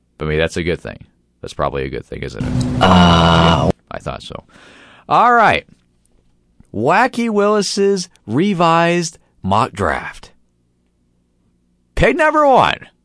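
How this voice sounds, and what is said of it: Hoarse, cracking, recovering voice. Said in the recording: “I still don't have my natural voice back... it's cracking on me still as we speak several days later... I definitely feel like there's like a bullfrog in my throat right now... my voice sounds a little bit different, because it was kind of out a couple of days ago. And it's still recovering”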